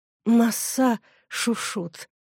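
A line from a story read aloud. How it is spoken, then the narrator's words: Barely audible miserable whisper. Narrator (Russian): прошептал несчастный так тихо, что никто, кроме его друга, не смог его расслышать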